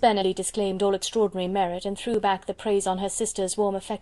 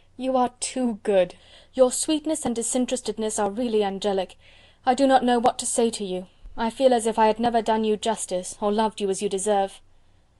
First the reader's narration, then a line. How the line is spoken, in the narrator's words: exclaimed Elizabeth